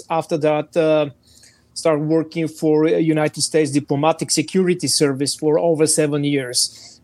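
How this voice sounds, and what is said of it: Bulgarian accent in English. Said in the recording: “my exotic accent, I'm not a natural American, so I'm Bulgarian”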